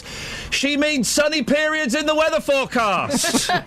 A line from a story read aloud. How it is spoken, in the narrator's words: my mum, who was listening upstairs, shouted down the stairs